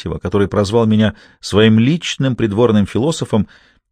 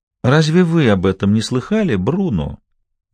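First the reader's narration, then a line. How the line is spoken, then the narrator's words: Very gentle question. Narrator (Russian): мягчайшим тоном спрашивает он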